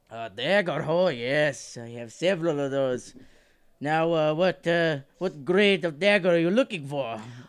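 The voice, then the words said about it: Put-on Scottish accent. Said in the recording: “that's a great Scottish accent. ... It is not.”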